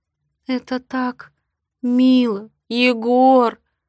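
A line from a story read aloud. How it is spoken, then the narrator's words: Sobbing. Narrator (Russian): Рыдаю я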